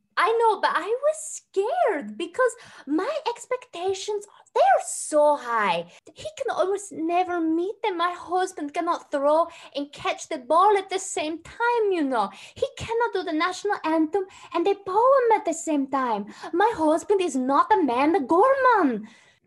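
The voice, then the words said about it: Put-on foreign accent. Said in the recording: “where is that accent from?”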